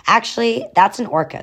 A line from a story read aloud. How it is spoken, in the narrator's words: Sage said